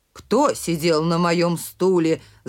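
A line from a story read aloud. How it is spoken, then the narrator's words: Growling. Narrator (Russian): зарычал Михаил Иванович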